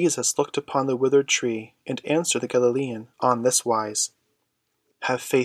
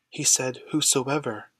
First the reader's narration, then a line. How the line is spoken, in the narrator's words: he murmured